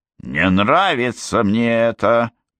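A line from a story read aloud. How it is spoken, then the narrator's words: Growling. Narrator (Russian): прорычала Момби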